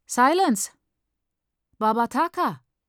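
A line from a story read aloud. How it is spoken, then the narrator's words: Called out. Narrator (German): ruft sie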